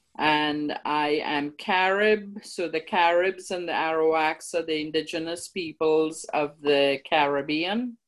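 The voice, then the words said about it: Trinidadian accent. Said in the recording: “I'm from Trinidad. You can tell by my lovely accent.”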